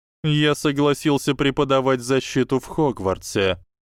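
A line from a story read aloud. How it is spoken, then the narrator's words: Even-voiced answer. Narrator (Russian): ровным голосом ответил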